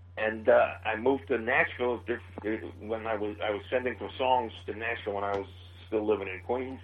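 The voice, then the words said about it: Queens, New York accent. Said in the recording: “I'm originally from Queens, New York. Obviously, you can tell from my accent.”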